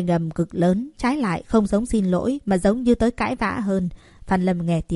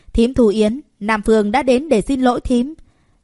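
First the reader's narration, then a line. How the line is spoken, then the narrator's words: Loud shout. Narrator (Vietnamese): người phụ nữ kia hét lớn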